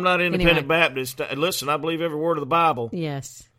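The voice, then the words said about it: Thick Southern American accent. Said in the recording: “I'm putting on my thickest Southern accent when I do this radio broadcast”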